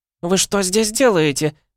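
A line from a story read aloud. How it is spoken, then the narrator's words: Shriek. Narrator (Russian): завизжала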